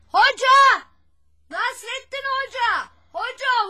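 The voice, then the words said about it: Loud shouting, calling out. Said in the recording (Turkish): “Ne kadar çok bağırıyorsun hatun. Hiç vazgeçmedim bağırmaktan.”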